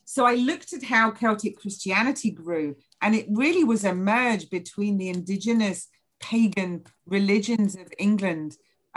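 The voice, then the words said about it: English accent. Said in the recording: “with my very Anglo skin and accent”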